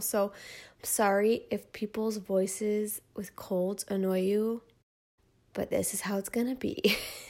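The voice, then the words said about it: Congested, nasal voice. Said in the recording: “as you can probably hear in my voice and in my terrible nasaliness, I have a cold”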